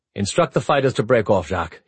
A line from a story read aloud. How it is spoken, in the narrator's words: he said